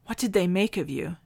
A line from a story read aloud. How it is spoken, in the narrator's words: Tayla asked, her voice given fresh urgency by horror